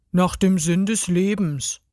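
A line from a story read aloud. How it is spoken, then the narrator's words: Nearly toneless, exhausted answer. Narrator (German): antwortete er fast tonlos und erschöpft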